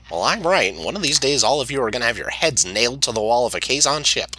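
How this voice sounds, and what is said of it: Goofy Neelix character voice. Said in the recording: “This is not a good Neelix impression... do the goofy white guy voice, and you're pretty close. Like, we can tell who you're doing.”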